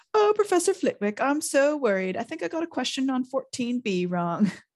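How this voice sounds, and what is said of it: Mocking high-pitched voice. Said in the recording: “put on a high voice.”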